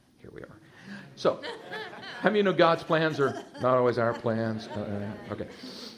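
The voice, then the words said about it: Slight Texan twang. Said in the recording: “can you tell I'm a Texan? You hear the little twang in there?”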